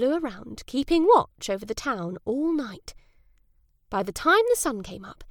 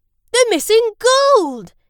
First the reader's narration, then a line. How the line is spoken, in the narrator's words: he cried